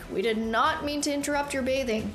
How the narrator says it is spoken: Killian shouted

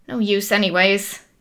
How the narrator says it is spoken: he muttered to himself

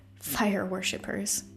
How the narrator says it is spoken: the half-elf mutter

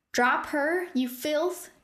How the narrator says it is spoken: Nim shouted

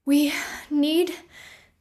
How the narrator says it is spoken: Thea breathed hard, holding a stitch in her side

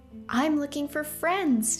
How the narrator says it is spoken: she said happily

